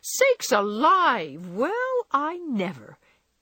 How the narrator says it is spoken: Hannah came in to exclaim

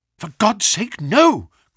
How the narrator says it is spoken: cried Bennett

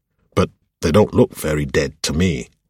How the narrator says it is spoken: Shigiri grunted

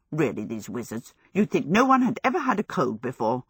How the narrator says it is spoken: muttering loudly

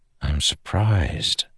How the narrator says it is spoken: Dalinar whispered to the Spren

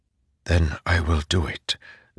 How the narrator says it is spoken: Zeth whispered

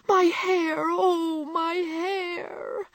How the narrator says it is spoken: wailed Meg, looking with despair

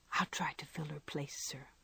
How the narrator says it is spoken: Joe whisper back with trembling lips

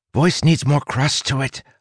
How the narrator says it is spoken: Hawk whispered

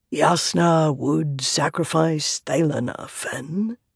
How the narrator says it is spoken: Taravangian said quietly

